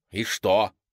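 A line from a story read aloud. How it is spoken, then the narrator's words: Irritated. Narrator (Russian): раздраженно сказала она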